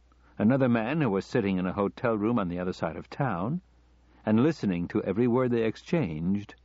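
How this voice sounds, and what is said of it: Usual voice. Nothing is said of it.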